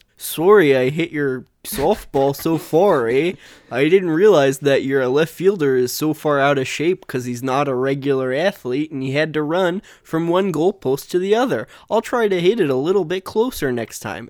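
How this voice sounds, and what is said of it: Put-on Canadian accent. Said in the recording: “he had more of a Canadian accent”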